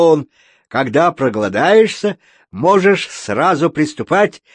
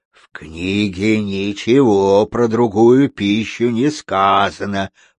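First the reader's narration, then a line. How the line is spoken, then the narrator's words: Growled by a bear. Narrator (Russian): прорычал медведь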